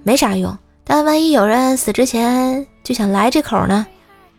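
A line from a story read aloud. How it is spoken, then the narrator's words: Asking while chewing. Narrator (Chinese): 我嚼着臭豆腐，问他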